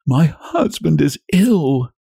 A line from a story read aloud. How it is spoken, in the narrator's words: she sobbed out